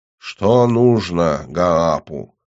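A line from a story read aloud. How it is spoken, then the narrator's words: Toothless mumble. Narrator (Russian): прошамкала она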